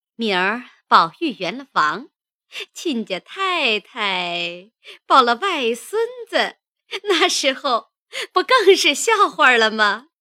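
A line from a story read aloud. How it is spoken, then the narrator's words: Laughing. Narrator (Chinese): 贾母笑道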